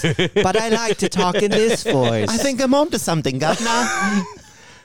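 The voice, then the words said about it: Put-on Victorian street urchin accent. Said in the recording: “you did like a little accent there... are you a Victorian era street urchin?... talk in your normal voice... Like I'm an old vampire trying to sell timeshare.”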